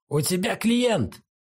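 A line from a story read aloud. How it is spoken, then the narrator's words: Man shouting. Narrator (Russian): крикнул мужчина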